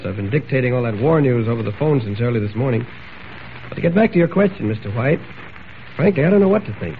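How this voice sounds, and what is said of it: Hoarse voice. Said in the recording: “Say, what's happened to your voice ... I'm just a little hoarse.”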